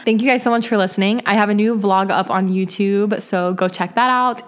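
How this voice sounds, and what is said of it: Tired, worn-out voice. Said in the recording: “my voice is so tired.”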